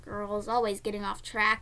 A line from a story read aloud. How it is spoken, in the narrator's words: he grumbled to himself